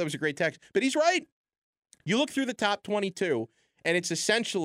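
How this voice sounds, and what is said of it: Usual voice. Nothing is said of it.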